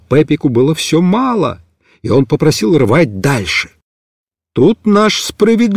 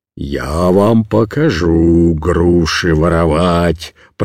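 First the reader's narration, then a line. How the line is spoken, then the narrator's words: Deep bass, old man. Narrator (Russian): пробасил дед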